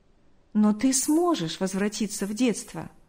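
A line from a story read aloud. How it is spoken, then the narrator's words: Smiling. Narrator (Russian): улыбнулся он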